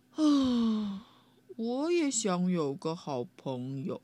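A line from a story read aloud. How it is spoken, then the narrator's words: Sighing. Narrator (Chinese): 他叹了口气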